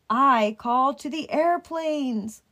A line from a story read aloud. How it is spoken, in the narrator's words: cried the bridge